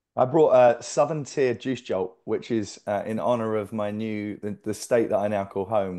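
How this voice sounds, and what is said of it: Non-Texan accent, London origins. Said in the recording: “your Austin accent doesn't sound like that ... You're originally from London. You've lived in Nigeria. You lived in Hong Kong”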